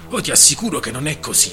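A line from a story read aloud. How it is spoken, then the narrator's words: Almost scandalized exclamation. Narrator (Italian): esclamò Exkemeling quasi scandalizzato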